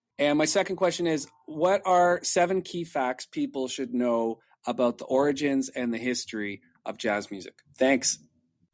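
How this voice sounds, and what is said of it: Western Canadian accent. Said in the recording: “My accent is from Western Canada, from Vancouver.”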